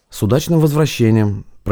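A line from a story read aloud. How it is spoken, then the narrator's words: Driver, woman's voice. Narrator (Russian): проговорил водитель женским голосом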